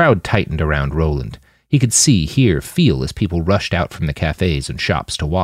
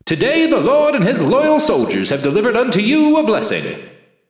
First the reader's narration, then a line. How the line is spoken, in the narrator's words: the martyr's voice boomed